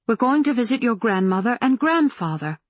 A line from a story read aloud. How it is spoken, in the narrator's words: Mama said brightly